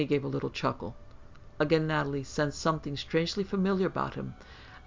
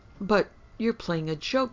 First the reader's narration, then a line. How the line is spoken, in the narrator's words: exclaimed